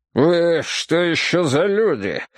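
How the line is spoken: Rough question. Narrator (Russian): грубо спросил он

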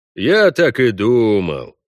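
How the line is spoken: Drawl. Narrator (Russian): протянул он

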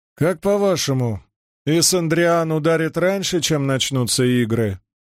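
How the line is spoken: Casual offhand question. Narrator (Russian): осведомился Даскеллен небрежным тоном, словно спрашивая, будет ли дождь

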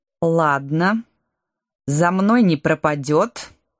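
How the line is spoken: Through gritted teeth. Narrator (Russian): сквозь зубы процедила дочь рыцаря

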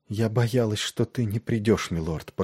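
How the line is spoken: Whispered. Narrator (Russian): прошептала она

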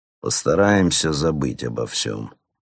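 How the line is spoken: Conciliatory tone. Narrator (Russian): продолжил он примирительным тоном

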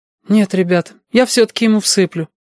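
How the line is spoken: Sad promise. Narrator (Russian): печально пообещала лис

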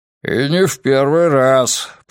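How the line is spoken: Muttering. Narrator (Russian): пробурчал Григориус

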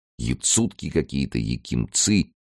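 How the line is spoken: Muttering, wincing. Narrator (Russian): пробормотал он, морщась

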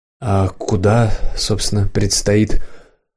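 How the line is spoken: Sighing. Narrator (Russian): Петр вздохнул

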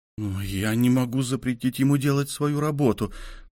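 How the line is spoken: Mumbling. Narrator (Russian): промямлил страховщик

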